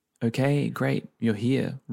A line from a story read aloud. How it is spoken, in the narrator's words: Roz chimed in flatly